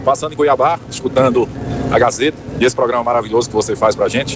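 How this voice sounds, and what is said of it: Non-local regional accent. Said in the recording (Portuguese): “ele tem um sotaque diferente do nosso ... O ... tem um sotaque diferente. Ele deve vir de outro lugar, assim, bem longe.”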